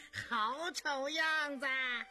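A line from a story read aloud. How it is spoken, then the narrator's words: Mocking, laughing. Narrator (Chinese): 姓殷笑着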